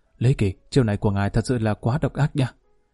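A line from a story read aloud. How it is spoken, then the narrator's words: Quiet, low voice. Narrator (Vietnamese): Lương Sư Thành lặng lẽ nhỏ giọng nói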